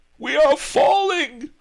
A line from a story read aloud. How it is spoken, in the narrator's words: howled Miser Shen